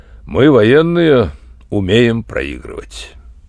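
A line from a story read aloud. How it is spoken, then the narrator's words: Dry. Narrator (Russian): полковник сказал сухо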